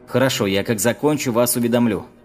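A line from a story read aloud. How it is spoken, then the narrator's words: Young man calling after. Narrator (Russian): крикнул молодой патологоанатом уже вслед уходящему начальнику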